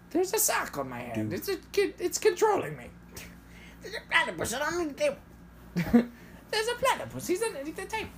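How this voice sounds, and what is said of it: Dr. Doofenshmirtz cartoon character impression. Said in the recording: “good doof impression ... I don't do it that well”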